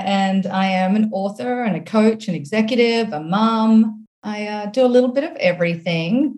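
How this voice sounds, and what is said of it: Australian accent. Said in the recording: “my accent is Australian”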